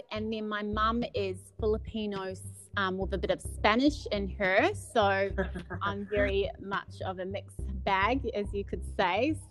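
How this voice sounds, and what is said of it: New Zealand accent. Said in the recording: “Your beautiful accent. ... So I'm Kiwi. So I'm born and bred in New Zealand.”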